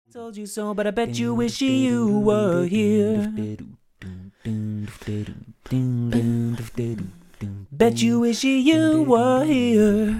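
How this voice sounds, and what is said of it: Funny, silly character voice. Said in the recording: “a funny, silly voice”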